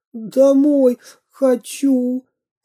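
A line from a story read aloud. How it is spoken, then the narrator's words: Sobbing. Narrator (Russian): всхлипнул Веня Кашкин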